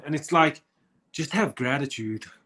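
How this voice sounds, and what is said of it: Poor put-on American accent. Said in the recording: “that was a poor American accent.”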